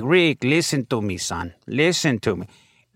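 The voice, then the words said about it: Mexican accent impression of father. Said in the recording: “being Mexican ... I'd perform my father, and the joke is funnier when I gave him an accent”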